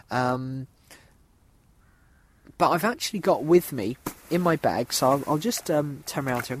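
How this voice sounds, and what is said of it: Sore-throated, congested voice. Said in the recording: “I've got a bit of a sore throat. ... My head's a little bit fuzzy, a little bit blocked up”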